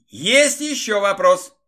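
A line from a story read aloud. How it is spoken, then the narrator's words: Angry shout. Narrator (Russian): выкрикнула Лида, зло посмотрев на Игоря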